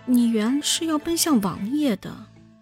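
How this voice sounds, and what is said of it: Quiet, hesitant mumbling. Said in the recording (Chinese): “扭扭捏捏的小声嗫嚅道”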